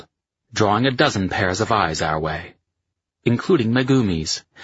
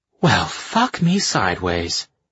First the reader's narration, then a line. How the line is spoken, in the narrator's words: she breathed